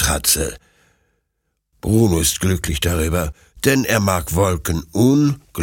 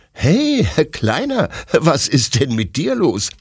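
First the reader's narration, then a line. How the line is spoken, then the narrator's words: Laughing question. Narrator (German): fragt Detlef lachend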